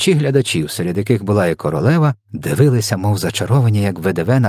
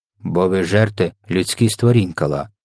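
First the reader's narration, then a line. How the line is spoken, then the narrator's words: Plain reply. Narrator (Ukrainian): відповів їм ВДВ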